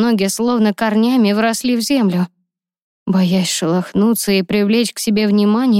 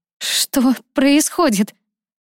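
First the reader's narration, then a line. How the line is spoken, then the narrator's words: Frightened, indignant stammering. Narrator (Russian): Лиза заикалась от страха и возмущения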